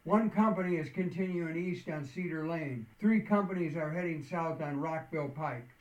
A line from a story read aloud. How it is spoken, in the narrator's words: another communications tech called out